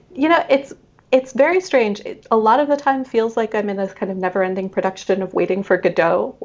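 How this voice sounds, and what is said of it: Non-British accent. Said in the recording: “judging by your accent, that you yourself are not British”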